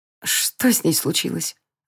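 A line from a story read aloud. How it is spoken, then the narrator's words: Trembling voice question. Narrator (Russian): дрогнувшим голосом спросила Ая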